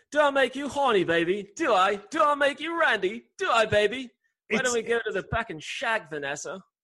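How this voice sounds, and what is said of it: Bad Austin Powers character impression. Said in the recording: “I can do the best Austin Powers impression ... a guy with a British accent could do that bad of an Austin Powers impersonation ... it's still kind of good”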